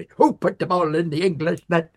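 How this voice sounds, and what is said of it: Imitated Irish accent. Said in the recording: “an Irish builder ... Yes, in that accent.”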